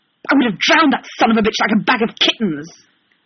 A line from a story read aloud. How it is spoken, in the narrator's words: he says fiercely